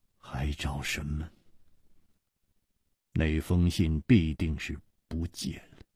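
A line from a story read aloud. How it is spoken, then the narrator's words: Murmured. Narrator (Chinese): 张啸林喃喃地说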